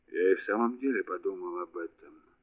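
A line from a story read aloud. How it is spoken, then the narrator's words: Hoarse. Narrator (Russian): сказал комиссар хрипло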